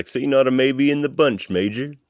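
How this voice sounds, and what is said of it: Poor Southern-accent character impression. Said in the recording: “There was a terrible Chief impression. I made him Southern.”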